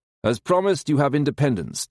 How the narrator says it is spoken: Darrow says

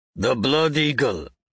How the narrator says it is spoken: the same one growls

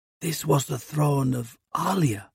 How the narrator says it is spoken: Osgard whispers

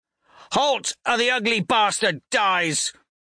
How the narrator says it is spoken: Severo screams

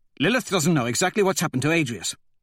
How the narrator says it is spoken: Cassius says quickly

